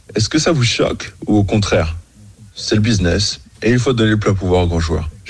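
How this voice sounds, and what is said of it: Slight American accent in French. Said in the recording (French): “Il a un petit accent américain, hein, parce que je crois qu'il vit aux États-Unis”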